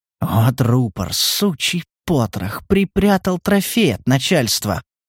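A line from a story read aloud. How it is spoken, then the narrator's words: Whisper. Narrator (Russian): прошептал Стас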